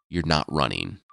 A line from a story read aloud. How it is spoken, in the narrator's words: the hunter said